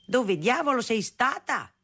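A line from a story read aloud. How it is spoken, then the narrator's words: Father yelling. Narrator (Italian): urlava mio padre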